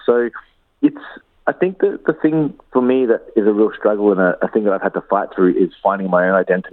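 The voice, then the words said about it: Australian accent. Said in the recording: “you can tell from this interview that I have an Australian accent.”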